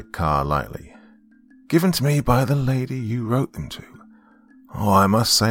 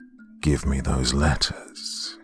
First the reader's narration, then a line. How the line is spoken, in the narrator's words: he breathed